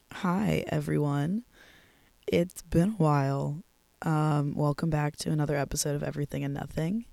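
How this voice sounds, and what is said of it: Sick, rough-sounding voice. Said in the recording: “my voice is really weird. I know it sounds probably really disgusting to hear in your headphones, but I am a little bit sick.”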